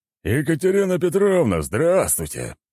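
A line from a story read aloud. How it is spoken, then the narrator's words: Man's forced cheerful voice. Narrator (Russian): наигранно веселым голосом сказал мужчина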